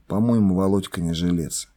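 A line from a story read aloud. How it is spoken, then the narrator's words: Whisper. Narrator (Russian): Гольдман как-то шепнул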